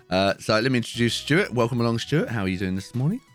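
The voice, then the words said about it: Voice in bad shape. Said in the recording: “my voice is terrible today, I'm sorry.”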